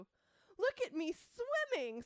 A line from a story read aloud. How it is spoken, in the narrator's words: squeaked Roo